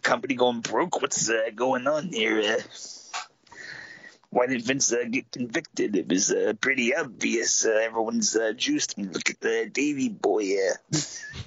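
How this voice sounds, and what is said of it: Gravelly imitation of another person's voice. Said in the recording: “do an impression of Stu Hart ... I've exhausted my Stu for the day ... I can only uh, gravel for uh, so long”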